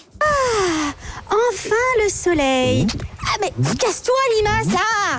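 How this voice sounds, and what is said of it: Voicing a slug character. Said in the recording (French): “Vous faites super bien la limace.”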